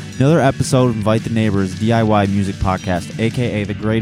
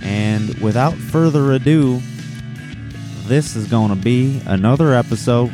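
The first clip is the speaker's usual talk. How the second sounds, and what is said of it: Put-on accent. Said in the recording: “doing an accent”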